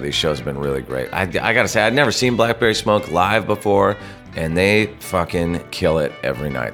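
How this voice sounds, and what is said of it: Hoarse, strained voice from a cold. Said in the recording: “I'm losing my voice, I'm fighting a cold”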